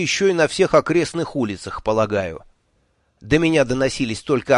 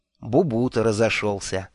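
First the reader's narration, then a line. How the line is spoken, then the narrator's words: Almost tender. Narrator (Russian): почти нежно сказал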